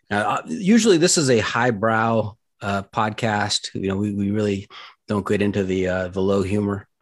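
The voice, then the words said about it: Sarcastic delivery. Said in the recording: “I'm kidding. I'm being sarcastic here.”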